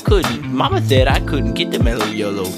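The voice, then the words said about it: Waterboy character accent impression. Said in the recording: “I'm like slowly descending to like water boy, accent.”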